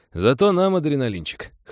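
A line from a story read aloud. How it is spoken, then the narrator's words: Chuckling. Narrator (Russian): хохотнул Стив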